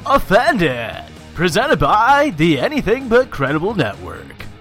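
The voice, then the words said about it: Announcer-style radio voice. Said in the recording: “that radio voice I just did ... You sound like a wannabe Big Brother.”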